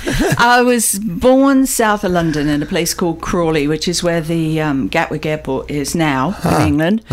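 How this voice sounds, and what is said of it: Beautiful accent. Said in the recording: “you have a beautiful accent”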